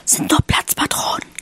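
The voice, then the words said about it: Whispering. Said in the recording (German): “flüsterte”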